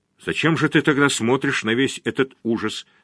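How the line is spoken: Plain. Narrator (Russian): сказала жена

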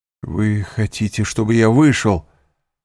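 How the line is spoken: Sorrowful exclamation. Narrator (Russian): горестно воскликнул Морель

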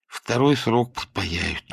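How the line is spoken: Sighing. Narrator (Russian): вздохнул Дырсин

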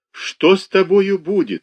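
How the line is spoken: Sobbing question. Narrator (Russian): спрашивала она, рыдая

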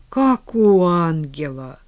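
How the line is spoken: Reverent sigh. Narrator (Russian): набожно вздохнула Василиса

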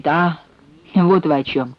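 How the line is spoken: Dry. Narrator (Russian): сухо говорит он

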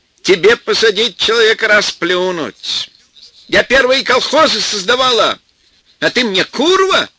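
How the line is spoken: Loud shouting. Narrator (Russian): Громко закричала теща

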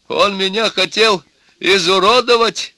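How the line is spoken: Shouting father. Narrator (Russian): кричал отец невесты

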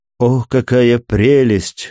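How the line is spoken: Sigh. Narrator (Russian): вздохнула ее светлость

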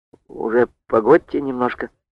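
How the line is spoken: Quiet speech. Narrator (Russian): тихо говорит Лиска

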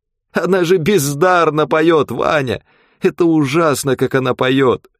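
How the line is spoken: Old man, tearful. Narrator (Russian): сказал старичок сквозь слезы

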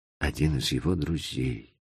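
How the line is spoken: Whisper. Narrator (Russian): прошептал поэт

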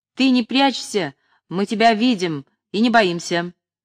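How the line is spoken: Shouted. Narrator (Russian): худощавая цыганка крикнула ему

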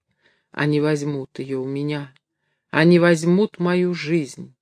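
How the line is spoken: Desperate moan. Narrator (Russian): Горбун в отчаянии простонал

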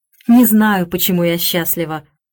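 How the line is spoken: Sudden laughter. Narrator (Russian): вдруг засмеялась она

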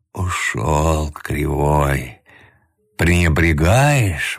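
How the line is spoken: Grumbling, breaking off song. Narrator (Russian): ворчал он, прерывая песню

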